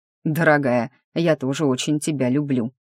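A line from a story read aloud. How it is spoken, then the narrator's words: Smirking snort. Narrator (Russian): хмыкнул и сказал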